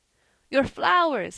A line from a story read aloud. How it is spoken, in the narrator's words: he panted